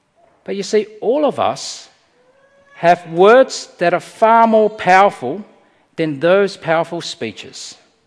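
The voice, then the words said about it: Speaks with a noticeable accent. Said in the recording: “I've got this funny accent people tell me about and they laugh at my expense”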